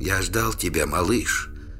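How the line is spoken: Barely audible whisper. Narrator (Russian): еле слышно прошептал Трувор

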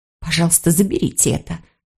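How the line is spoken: Whisper. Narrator (Russian): прошептала она

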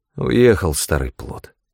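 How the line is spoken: Gruff mutter. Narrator (Russian): буркнул Джо

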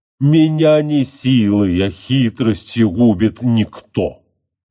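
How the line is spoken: Wild roar. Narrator (Russian): отвечал, дико взревев, Полифем

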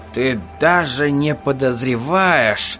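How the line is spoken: Suddenly tired voice. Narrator (Russian): сказал Ральфи неожиданно усталым голосом

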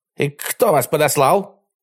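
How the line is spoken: Barking. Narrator (Russian): гаркнул он

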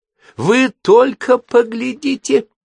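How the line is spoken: Shouting. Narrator (Russian): закричала она

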